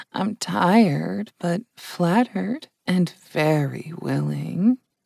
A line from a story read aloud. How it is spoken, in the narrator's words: purred Trish